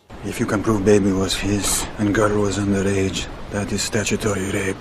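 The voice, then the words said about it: Stiff, careful put-on Russian accent. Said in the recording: “Russian accent. ... Viggo Mortensen, Eastern Promises. ... Mortensen does a pretty creditable job here ... It doesn't feel quite integrated. It's a little general ... It's not that the sounds are off. They're all pretty good. ... It just feels a little stiff and a little careful. The accent hasn't quite settled in yet.”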